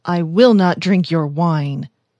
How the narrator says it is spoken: he said firmly

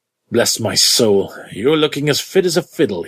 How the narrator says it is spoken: he cried

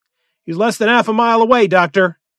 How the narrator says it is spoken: cried Jones

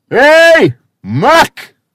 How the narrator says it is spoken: leaned back in his chair and bellowed

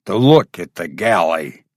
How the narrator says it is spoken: grunted Conan

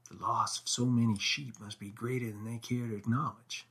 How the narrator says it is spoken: whispered Middleton

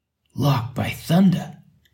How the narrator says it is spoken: he exclaimed

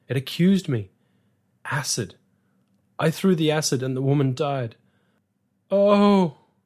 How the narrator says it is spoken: It was a long, shuddering wail of terror

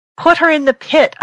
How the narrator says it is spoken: yelled at him

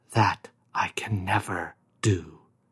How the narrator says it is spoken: he whispered

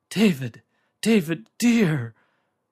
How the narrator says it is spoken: Her sobbing voice came thinly and remotely to his fading hearing

